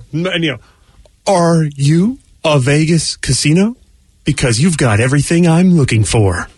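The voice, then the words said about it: Imitates another person's voice. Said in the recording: “that was sort of like William Shatner doing a Keanu Reeves impression”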